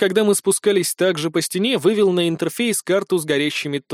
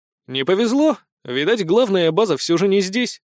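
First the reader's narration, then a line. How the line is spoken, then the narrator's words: Wry grunt. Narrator (Russian): хмыкнул я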